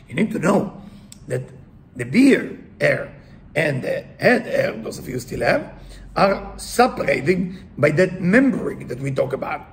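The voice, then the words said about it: Foreign accent in English. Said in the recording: “sorry, with my accent, I have to explain everything”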